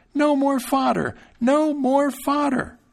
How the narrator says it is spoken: his fright became so great that he cried out as loud as he could

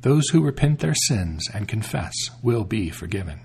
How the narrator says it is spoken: She said to the queen kindly

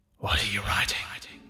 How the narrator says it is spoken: comes a hissed voice

